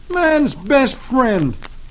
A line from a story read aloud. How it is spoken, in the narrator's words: he exclaims